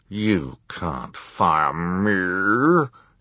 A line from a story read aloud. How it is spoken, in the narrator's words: Esme growled